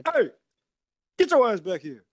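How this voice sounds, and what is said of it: Stern dad voice. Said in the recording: “Get it with the Black Dad voice.”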